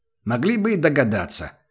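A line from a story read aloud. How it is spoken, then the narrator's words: Offended, then a snort. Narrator (Russian): с обидой сказал Убер и тут же хмыкнул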